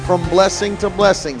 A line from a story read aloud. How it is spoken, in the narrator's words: he laughs